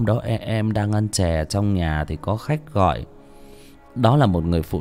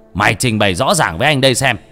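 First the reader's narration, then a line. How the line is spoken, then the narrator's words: Shouting angrily. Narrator (Vietnamese): Bác Lân quát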